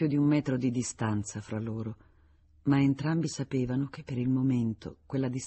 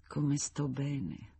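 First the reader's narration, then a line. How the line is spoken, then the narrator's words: Sigh in unfamiliar tone. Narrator (Italian): con un tono di voce che ancora non le conosceva, sospirò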